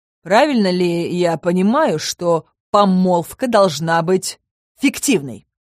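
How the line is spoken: Sharp questioning tone. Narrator (Russian): Резким тоном поинтересовался тень

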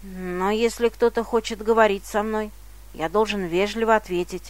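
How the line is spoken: Grumbling mutter. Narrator (Russian): пробурчал Иосиф

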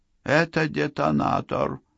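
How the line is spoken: Gloomy interjection. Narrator (Russian): мрачно вставила Сакс

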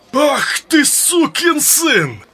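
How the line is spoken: Sudden bark. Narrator (Russian): Неожиданно рявкнул Крахан Крайт

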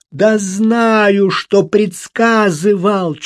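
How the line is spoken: Near yell. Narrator (Russian): чуть не завопил Тоби

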